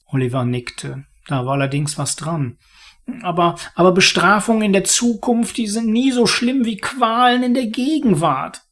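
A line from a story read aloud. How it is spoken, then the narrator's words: Murmured. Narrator (German): murmelte er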